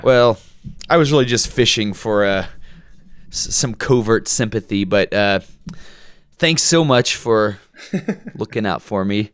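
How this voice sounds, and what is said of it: Hoarse, gravelly voice. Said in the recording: “I'm feeling a little under the weather ... if my voice sounds a little hoarse ... I might sound a little gravelly today.”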